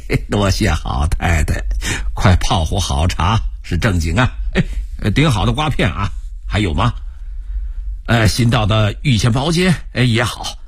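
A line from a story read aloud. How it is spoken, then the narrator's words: Cheerful laughing. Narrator (Chinese): 罗赵笑着说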